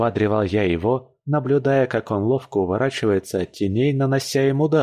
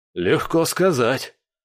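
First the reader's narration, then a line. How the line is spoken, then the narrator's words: Hoarse rasp. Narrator (Russian): прохрипел он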